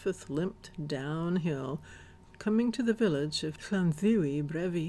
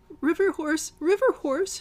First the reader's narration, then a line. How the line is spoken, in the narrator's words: squeaked, trying to remember the chant to drive the beast away